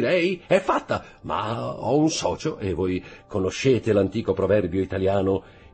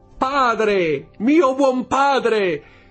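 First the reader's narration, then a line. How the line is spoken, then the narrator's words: Old man crying out. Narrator (Italian): Il vecchio gettò un grido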